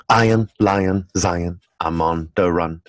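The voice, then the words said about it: Imitates another person's singing voice. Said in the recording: “my best Bob Marley impersonation”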